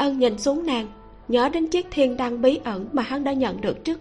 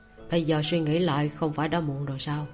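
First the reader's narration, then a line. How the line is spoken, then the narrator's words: Lazy drawl. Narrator (Vietnamese): lười biếng nói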